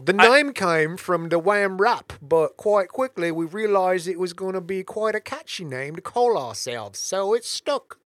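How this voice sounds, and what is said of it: Put-on English accent. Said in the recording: “Then do a British accent. ... You have the English accent of Andy Bernard, which is great.”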